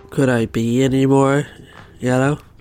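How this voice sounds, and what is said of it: Chandler Bing character impression. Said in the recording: “you do a great Chandler Bing impression, don't you? You do an impression of Chandler”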